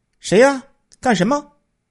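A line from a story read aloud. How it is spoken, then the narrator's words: Loud question. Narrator (Chinese): 王老板高声询问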